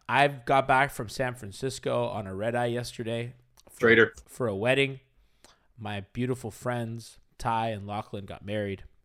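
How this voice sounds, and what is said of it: Hoarse, worn-out voice. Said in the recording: “I am your disheveled voice host ... My voice is shot ... I yelled so loud”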